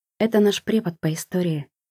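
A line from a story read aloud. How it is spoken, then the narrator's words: Whisper in ear. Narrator (Russian): шепнул мне на ухо Андрей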